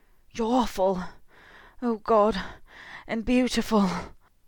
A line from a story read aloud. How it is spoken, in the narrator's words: Harry choked out, feeling infuriated and relieved by the words both